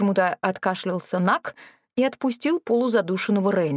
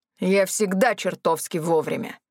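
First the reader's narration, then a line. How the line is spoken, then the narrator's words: Sudden growl. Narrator (Russian): вдруг рыкнул ректор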